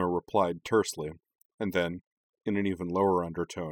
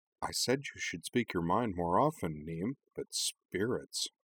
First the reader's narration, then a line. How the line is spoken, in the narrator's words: Cora leaned over to her and murmured